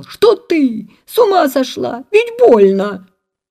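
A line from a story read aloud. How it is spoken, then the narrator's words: Just-woken old man shouting. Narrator (Russian): Дед проснулся и закричал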